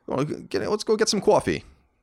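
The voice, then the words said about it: Strong New York accent. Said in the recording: “all the women in my family ... all still have it. My mom sounds ... My mom still has it like super strong”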